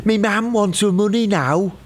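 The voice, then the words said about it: Put-on Liverpudlian accent. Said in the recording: “That is a Liverpudlian accent.”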